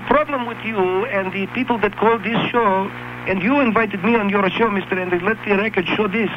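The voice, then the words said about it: Foreign accent, from Jordan. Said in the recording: “I come from Jordan ... you have an accent, where are you from?”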